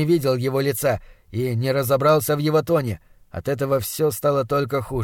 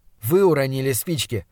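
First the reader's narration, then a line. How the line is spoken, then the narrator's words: Forced calm. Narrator (Russian): заметил я, стараясь говорить спокойно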